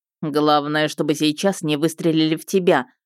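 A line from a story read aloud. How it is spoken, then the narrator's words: Smirking grunt. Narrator (Russian): хмыкнул он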